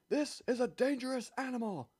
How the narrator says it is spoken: roared the chief

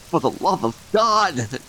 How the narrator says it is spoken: Derek choked

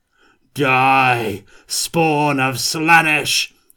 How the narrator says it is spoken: Kurt bellowed

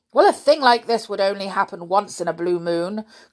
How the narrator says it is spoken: cried Uncle Quentin, getting angry

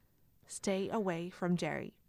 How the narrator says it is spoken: Renee said in a flat, low tone

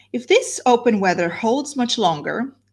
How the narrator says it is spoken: said Mrs

